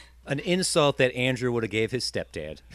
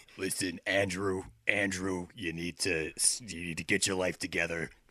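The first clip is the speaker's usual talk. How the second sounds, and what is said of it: Imitates another person's voice. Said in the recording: “That's a pretty good impression.”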